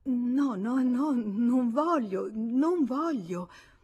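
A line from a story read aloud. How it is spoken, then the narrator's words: Dismayed stammering. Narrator (Italian): Lei sgomentata dall'idea di quel convegno a due, e balbettò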